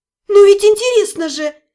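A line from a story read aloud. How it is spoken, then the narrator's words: Exclamation. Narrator (Russian): воскликнула я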